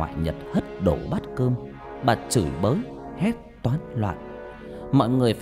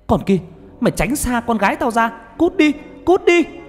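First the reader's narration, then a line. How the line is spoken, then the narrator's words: Sudden old woman's scream. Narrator (Vietnamese): Bà ngoại của Nhật chợt bà hét lên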